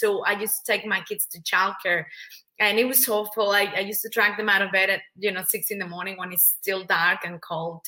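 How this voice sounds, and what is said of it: Mexican Spanish accent in English. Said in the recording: “I'm originally from Mexico, hence the accent.”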